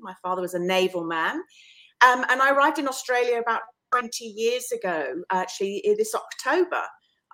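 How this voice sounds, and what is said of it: English accent. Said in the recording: “as you can probably hear from my accent, I'm originally from England”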